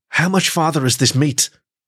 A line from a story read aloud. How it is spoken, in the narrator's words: asked the little fox in a wheezing kind of way